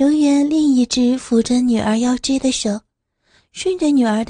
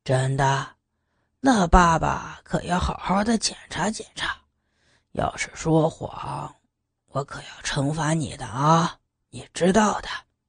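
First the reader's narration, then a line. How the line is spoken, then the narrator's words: Soft laugh. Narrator (Chinese): 刘远轻轻一笑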